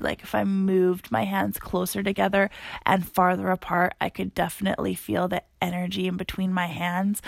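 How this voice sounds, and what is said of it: Tired-sounding voice. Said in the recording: “I sound super tired, which I am”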